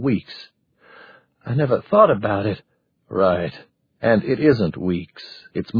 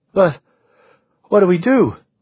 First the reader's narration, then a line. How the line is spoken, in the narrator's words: Maureen cried